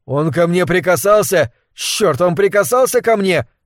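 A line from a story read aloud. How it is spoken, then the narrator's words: Shouting. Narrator (Russian): крикнул Хиггс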